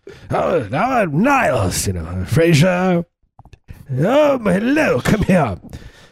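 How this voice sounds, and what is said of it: Affected sort-of-British accent. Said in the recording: “it's not quite British, but it's sort of British ... Me do Frasier, but as his brother, Niles”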